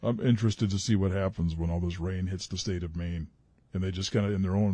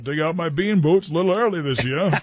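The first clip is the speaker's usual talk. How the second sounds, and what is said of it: Put-on Maine Down East accent. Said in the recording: “That accent is so cool. It's one of the most interesting accents in the country ... that Down East accent”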